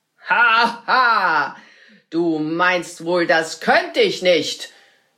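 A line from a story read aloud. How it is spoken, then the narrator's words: Wizard calling out. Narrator (German): rief der Zauberer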